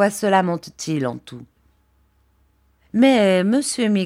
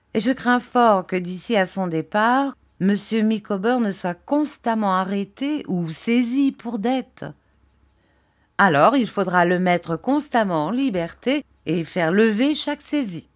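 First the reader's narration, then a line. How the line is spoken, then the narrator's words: Plain. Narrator (French): dit ma tante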